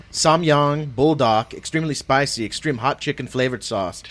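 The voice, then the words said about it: Put-on Asian accent reading. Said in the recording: “Did you have to add the accent? ... You got a little more Asian as you went through there”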